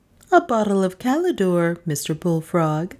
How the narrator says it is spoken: said my wife, coolly

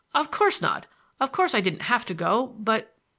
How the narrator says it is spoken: I stammered, faltered, and ceased

